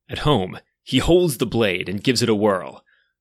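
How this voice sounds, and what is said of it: Dramatic storytelling voice. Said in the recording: “I'm going to switch to my dramatic voice.”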